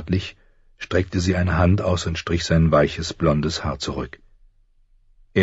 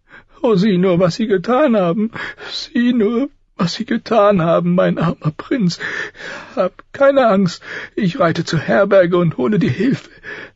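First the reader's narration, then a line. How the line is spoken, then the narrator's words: Sobbing woman. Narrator (German): schluchzte sie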